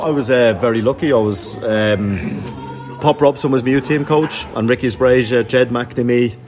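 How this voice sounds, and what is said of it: Non-local accent, not from Sunderland. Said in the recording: “they're probably worked out by the accent that you know that you're not from”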